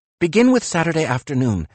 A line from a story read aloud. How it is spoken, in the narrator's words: Nietzsche said quickly